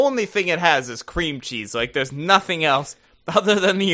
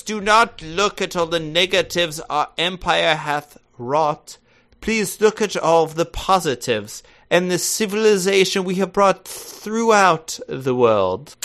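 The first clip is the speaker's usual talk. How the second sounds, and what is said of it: Fake drunk British accent. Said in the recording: “the drunker you get, the better your accent's getting. It just sounds like a drunk British person now.”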